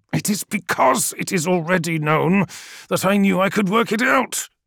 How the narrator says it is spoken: he snarled

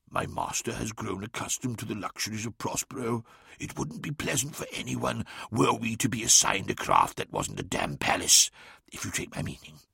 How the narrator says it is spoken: Lemuel leaned in and whispered conspiratorially

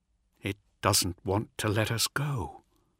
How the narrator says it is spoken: said Carno, quietly

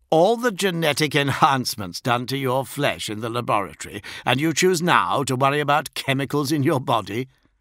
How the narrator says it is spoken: Marius laughed and said

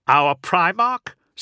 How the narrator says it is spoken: said Ort with a laugh

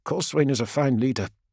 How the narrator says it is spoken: he mutters, almost to himself

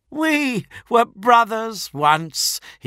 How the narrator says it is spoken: he cried with mock gravitas

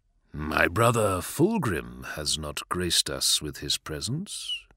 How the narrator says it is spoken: murmured Mortarion, casually dismissing the purple stormbird with thinly veiled sarcasm

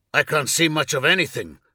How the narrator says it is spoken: snapped Hervak

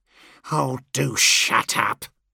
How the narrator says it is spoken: Land sneered

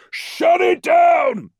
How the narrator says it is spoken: Tau shouted again

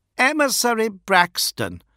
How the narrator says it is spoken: cried Fulgrim

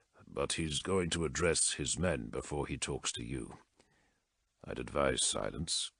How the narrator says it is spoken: said Aram Gallicus softly

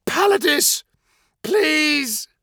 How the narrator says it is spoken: screamed Roxanne

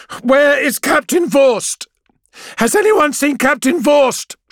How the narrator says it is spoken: she yells

